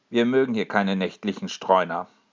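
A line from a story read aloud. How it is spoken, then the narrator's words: Cold. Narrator (German): sagt er kalt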